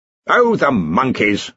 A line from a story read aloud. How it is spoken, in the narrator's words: snapped Ridcully